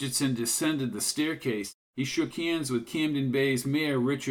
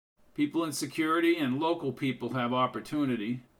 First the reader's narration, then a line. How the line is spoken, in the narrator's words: said Briggs